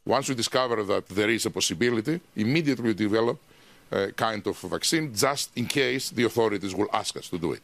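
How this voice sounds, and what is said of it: Thick accent. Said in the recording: “accent is thick! ... that accent, probably not translating well”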